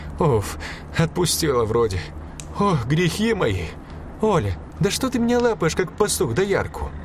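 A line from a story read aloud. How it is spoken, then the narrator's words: Exhaling with relief. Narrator (Russian): Аделина выдохнула и сказала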